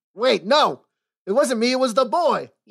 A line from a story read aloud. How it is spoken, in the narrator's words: yelled Parlo as the constables lifted him bodily from his seat